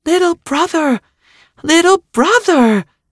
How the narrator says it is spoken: the Earth cried out in delight

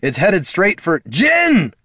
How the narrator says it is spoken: Gorm shouted

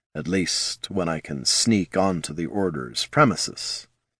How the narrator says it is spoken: said Jin softly

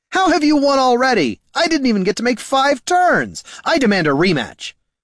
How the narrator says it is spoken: he heard the bard shouting

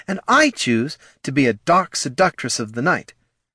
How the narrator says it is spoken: snapped Battelle

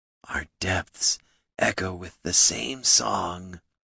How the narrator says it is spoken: he said wistfully

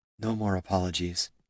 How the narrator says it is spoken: she whispered

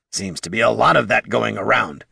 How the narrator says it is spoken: hissed the kobold

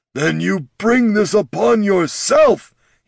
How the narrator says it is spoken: he bellowed

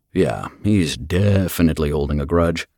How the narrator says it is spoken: Finn muttered

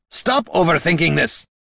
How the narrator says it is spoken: he barked

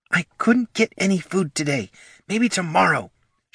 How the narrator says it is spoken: hissed from the side of her muzzle

